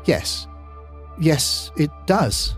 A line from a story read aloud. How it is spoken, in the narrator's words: Ken said weakly, sheepishly